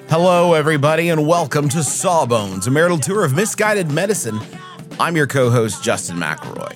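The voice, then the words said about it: Exaggerated radio announcer voice. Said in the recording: “Sometimes I do that voice unintentionally, and it's like almost like a parody of how radio people sound like ... He's one of these radio guys.”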